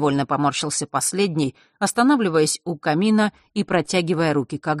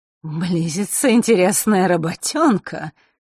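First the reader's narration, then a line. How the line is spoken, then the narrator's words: Sudden chuckle. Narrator (Russian): неожиданно хохотнул тот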